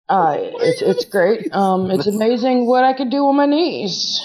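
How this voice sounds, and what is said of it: Deliberately lowered voice. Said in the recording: “I have to lower my voice.”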